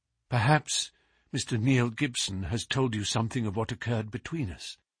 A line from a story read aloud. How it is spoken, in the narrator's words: she asked in a low, agitated voice